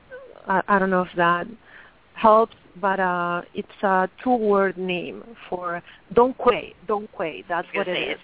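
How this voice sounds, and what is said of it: Non-native English accent. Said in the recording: “Sorry about my accent.”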